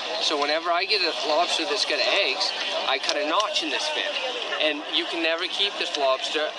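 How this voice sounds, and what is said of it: Maine accent, Boston-like. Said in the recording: “This Maine accent is very unique, if you've never heard one. It's kind of a mixture of a Boston accent and something completely alien.”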